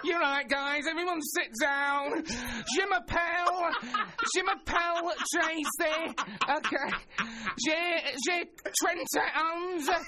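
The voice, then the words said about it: Manchester accent speaking French. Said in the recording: “this one's from Manchester ... Any danger of that accent?”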